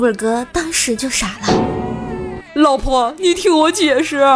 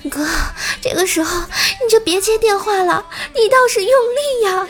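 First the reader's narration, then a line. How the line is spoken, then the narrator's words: Panting urgent shout. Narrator (Chinese): 公司那妹子在旁边也用着带着急促喘气的声音大喊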